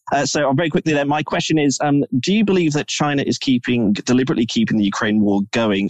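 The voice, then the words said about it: English accent. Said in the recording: “it's another English accent for you to contend with”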